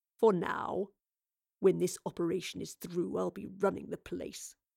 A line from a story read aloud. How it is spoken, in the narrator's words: he muttered